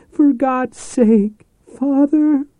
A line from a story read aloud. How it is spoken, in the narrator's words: she screamed